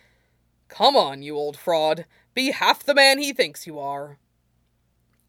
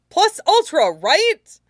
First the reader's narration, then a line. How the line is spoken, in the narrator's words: Midoriya said gleefully, more laugh than word